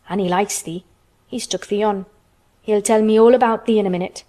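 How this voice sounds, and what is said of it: Low-voiced Yorkshire character voice. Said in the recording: “said Dickon in his low voice again”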